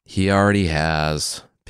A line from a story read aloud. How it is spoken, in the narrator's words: Pigsy said with a sigh